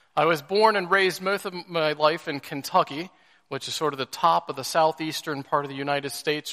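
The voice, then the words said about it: Mixed-up American accent. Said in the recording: “my accent, which is American, but like Matthew, I have a bit of a mixed-up accent”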